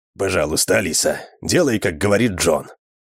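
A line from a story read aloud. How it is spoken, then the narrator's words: Gentle. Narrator (Russian): мягко сказал Эндрю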